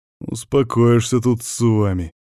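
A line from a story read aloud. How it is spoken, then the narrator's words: Growl. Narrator (Russian): прорычал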